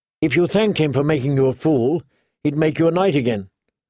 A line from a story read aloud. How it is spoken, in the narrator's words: Sansa said sharply